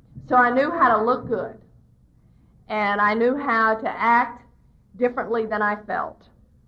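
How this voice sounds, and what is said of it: Southern American accent. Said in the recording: “I'm Southern born and raised, in case you missed the accent.”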